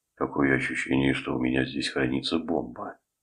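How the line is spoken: Sighing. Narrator (Russian): вздохнул Вон Барт

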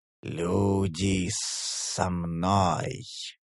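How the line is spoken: Hissed in passing. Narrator (Russian): прошипел Ралк мимоходом

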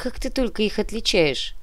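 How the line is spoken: Grumbling. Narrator (Russian): проворчал Диверь

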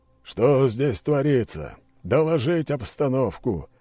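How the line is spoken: Barked command. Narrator (Russian): рявкнул генерал-майор

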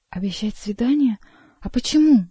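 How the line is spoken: Exclamation. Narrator (Russian): воскликнула

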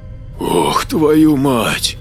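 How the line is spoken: Breathed out exclamation. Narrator (Russian): выдохнул Маркус

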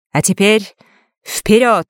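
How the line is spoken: Sudden shout. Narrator (Russian): неожиданно выкрикнула

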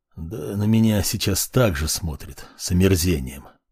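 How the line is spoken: Muttering under breath. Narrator (Russian): пробормотал себе под нос волкодав

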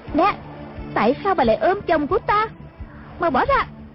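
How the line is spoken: Roaring. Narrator (Vietnamese): Nàng gầm lên

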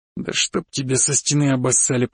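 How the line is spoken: Grumbled. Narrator (Russian): проворчал

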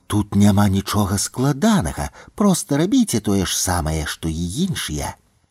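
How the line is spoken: Whisper in the ear. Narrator (Belarusian): Ляля прашаптала маладому афіцэру на вуха

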